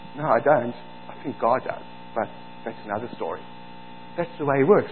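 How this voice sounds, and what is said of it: South African accent. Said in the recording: “preach with a South African accent”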